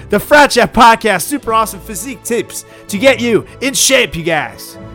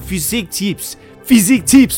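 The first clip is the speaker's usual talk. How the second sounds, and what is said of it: Mock French accent. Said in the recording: “sounded so French”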